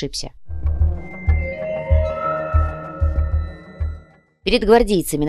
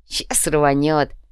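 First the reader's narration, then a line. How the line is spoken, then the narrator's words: Smirking grunt. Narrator (Russian): хмыкнул гвоздь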